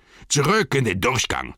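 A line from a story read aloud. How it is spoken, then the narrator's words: Several roaring. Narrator (German): brüllten einige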